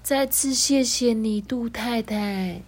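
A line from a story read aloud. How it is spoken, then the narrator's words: Very quiet. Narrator (Chinese): 他小小声的说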